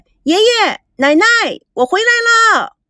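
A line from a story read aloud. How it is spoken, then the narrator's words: Loud calling out. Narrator (Chinese): 赵美娇……大声的叫着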